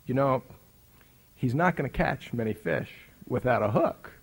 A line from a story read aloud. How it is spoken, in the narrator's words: he warmly, graciously, kindly, with a gracious thoughtfulness, said to me